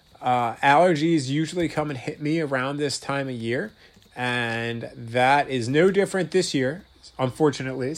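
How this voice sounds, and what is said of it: Slightly nasal, congested voice. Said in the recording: “I have a little bit of a cold. ... I'll definitely maybe sound a little bit nasally, a little bit congested.”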